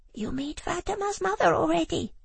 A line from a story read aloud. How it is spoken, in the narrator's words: whispered Hawa